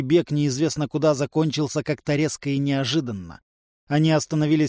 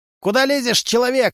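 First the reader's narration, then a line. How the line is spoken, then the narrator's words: Barking shout. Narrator (Russian): рявкнул Тришка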